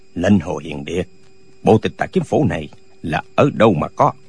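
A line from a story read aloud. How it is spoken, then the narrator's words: Long loud laughter. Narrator (Vietnamese): cười lớn một tràng dài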